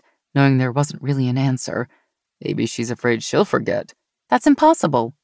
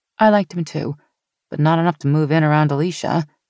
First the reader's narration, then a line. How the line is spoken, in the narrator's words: he chuckled